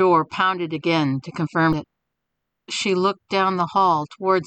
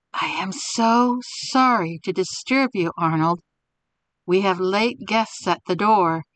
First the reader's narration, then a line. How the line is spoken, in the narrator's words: Mary whispered low